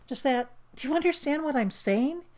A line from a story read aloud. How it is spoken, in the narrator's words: he asks frantically, because he needs to know that he and Pete are really on the same wavelength